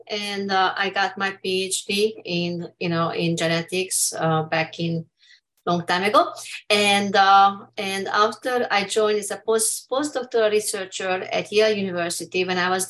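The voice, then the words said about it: Hungarian accent. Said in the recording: “I detect an accent ... I'm from Hungary”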